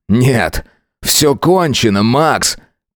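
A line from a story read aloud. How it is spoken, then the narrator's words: Shouting. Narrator (Russian): крикнул Сайлос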